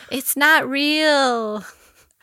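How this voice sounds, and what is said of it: Impression of Gabby Windy. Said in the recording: “my impression of Gabby Windy”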